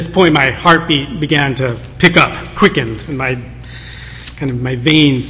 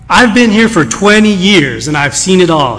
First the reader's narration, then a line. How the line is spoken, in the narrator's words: said